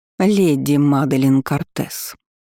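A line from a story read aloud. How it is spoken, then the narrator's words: Icy voice. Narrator (Russian): произнесла та ледяным голосом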